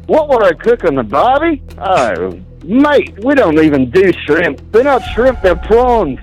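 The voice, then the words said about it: Fake Australian accent. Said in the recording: “if his Australian accent is real or not ... actually doing an Australian accent or not ... that as a fake”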